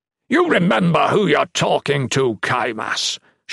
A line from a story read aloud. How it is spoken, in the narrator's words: Shatan spat